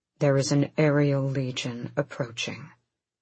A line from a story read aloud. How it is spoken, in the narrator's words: Rowan said too calmly